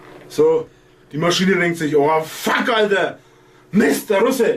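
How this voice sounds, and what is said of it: Usual voice. Nothing is said of it.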